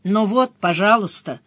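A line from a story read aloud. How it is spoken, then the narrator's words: Grumbled. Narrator (Russian): проворчала я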